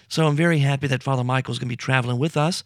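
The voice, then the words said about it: Strained voice. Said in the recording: “my voice is kind of strained ... battling the seasonal allergies”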